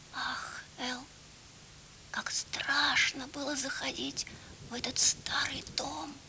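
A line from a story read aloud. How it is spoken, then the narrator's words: Whisper. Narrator (Russian): Прошептала Тити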